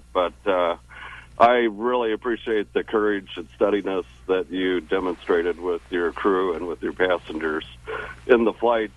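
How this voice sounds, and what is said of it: Choked-up, emotional voice. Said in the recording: “I get a little bit choked up ... I'm probably a little bit emotional”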